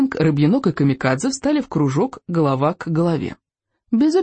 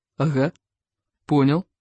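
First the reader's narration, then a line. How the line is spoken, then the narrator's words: Snorting. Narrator (Russian): хмыкнул Рыбьенок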